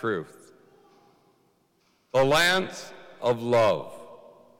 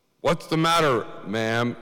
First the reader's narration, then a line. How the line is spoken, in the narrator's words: asked